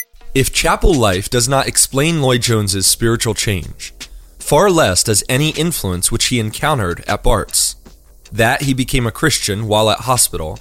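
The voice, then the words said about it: American accent, not Scottish. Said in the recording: “accent is terrible. He's from someplace like Philadelphia... imagine that this account... is actually coming from a truly wise Scottish author”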